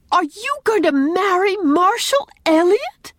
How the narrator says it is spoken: exclaimed Anne, recovering her power of speech under this second shock

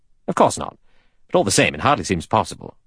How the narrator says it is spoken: Lombard said irritably

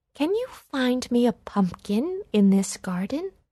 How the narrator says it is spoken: asked kindly

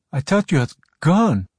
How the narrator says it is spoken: Abdullah said shakily

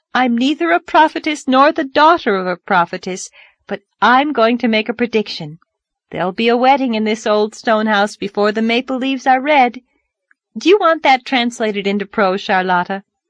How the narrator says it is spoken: she cried gaily

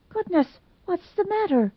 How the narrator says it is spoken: gasped Dot Fraser

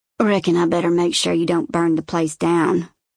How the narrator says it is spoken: Silas grumbles

